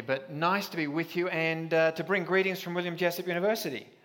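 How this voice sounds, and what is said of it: Australian accent. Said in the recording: “I am an Aussie, and that means you won't understand the first 10 minutes”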